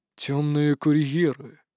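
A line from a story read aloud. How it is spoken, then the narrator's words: Thoughtful, drawn-out. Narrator (Russian): задумчиво протянул отец Двар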